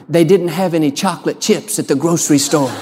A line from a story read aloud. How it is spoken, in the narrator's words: She whispered